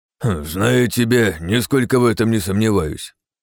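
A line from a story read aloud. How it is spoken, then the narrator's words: Amused snort. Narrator (Russian): хмыкнул Веня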